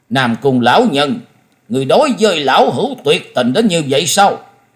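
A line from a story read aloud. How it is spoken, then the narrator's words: Furious, shaking voice. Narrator (Vietnamese): Hầu tẩu Tào Di tức giận đến toàn thân rung lên bần bật nói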